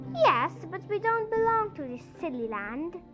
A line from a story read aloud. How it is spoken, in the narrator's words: said Joe